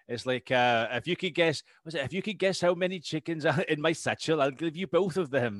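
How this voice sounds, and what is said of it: Poor put-on Welsh accent. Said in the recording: “That was a shocking Welsh accent, by the way. Good Welsh impression.”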